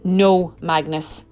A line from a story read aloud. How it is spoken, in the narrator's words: Eric replied sternly